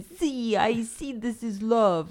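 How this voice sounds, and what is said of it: Put-on Italian-sounding accent. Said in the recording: “why it sounds Italian.”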